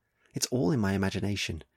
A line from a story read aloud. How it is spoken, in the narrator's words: she whispers